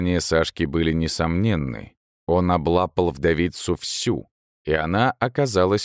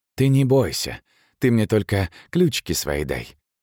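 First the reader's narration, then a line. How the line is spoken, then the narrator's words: Soft whisper. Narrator (Russian): тихо шептал Сашка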